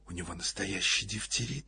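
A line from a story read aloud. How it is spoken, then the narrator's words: Whispered question. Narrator (Russian): спросила шепотом Ольга Ивановна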